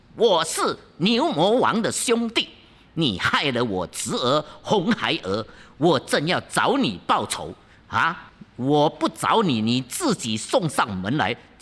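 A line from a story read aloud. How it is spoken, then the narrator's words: Through gritted teeth. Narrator (Chinese): 如意真仙咬牙切齿道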